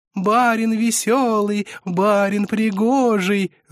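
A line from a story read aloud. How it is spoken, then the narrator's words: Singsong chant. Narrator (Russian): затянули они нараспев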